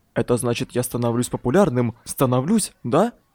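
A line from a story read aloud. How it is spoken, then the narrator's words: Whispering in ear. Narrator (Russian): шепча прямо в ухо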